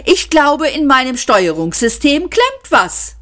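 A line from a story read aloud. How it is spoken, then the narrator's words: Cheerful machine announcement. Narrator (German): verkündete fröhlich der Computer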